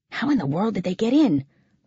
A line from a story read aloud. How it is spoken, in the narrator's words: muttered someone else